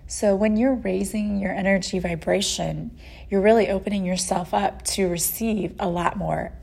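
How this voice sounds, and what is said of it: Voice cutting in and out, congested. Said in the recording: “my voice keeps going in and out. Uh, I my allergies have been acting up this week ... my sinuses and then you know then i lose my voice”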